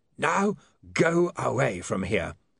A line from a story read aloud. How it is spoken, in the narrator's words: rasped Mr